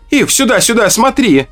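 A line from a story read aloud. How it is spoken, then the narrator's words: Shout. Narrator (Russian): закричала Ака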